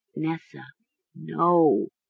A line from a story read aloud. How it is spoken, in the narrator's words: Mara whispered